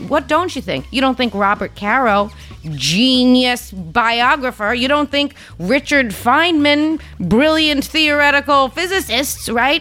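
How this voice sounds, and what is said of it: Noticeable accent. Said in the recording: “be intelligent and have a fucking accent. Because you hear my accent, you think construction worker nanny bullshit.”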